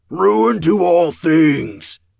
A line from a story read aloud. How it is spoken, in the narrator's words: the second howled, louder than before